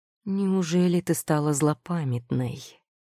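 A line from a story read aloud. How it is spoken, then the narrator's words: Deceptively soft tone. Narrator (Russian): Обманчиво мягким тоном произнес он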